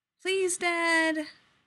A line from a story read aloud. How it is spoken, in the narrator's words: Sammy pleads